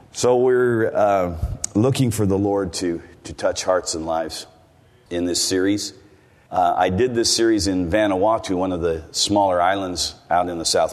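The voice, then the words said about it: American accent. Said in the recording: “As you can tell by my accent... I come from the United States... I don't really sound like a Kiwi. And the longer I stay here, the more I sound like an American.”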